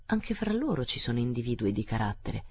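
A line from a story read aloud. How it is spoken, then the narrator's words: Sinister murmur. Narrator (Italian): mormorò Ossipon in modo sinistro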